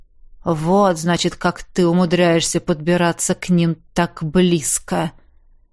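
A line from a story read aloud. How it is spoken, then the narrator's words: Thoughtful drawl. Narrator (Russian): задумчиво протянул Хэнк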